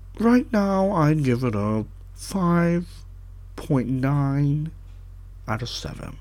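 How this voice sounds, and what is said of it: Imitates another person's voice. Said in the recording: “That's my Tim Gunn impersonation.”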